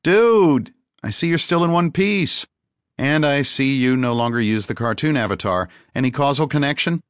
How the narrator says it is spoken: laughed

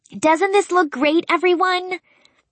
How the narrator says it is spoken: Spencer called out to the room

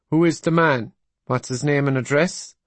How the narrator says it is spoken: He asked in a suspicious provincial accent

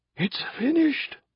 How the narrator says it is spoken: Cayman cried

